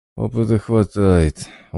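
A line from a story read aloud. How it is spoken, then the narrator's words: Glum agreement. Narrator (Russian): уныло согласился сталкер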